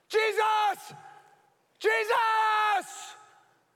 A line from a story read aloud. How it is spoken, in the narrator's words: they're screaming